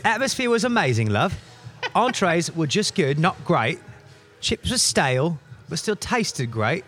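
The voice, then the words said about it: Bad put-on British accent. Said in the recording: “me trying to do a British voice, which is going to be so horrible”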